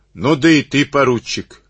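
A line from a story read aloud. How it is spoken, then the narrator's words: Shouting. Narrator (Russian): крикнул он Карабанову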